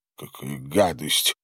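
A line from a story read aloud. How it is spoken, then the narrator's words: Mutter. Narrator (Russian): пробормотал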